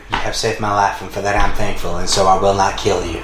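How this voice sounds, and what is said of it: Put-on Deep South accent. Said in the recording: “deep south accent ... sound like he from Savannah ... sounding exactly like an oil tycoon”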